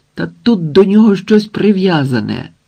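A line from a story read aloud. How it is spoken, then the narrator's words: Sudden exclamation, rescuer. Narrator (Ukrainian): нараз вигукнув один з рятувальників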